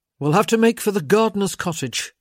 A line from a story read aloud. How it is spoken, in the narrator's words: he said, impatiently